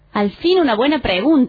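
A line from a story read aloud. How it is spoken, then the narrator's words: Enthusiastic exclamation. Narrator (Spanish): exclamó Víctor entusiasmado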